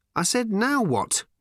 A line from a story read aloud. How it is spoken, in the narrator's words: repeated Ford irritably